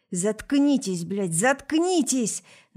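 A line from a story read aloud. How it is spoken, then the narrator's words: Shouting. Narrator (Russian): кричал Наиль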